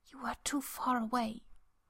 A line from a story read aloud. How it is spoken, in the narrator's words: Merlin whispers against Arthur's skin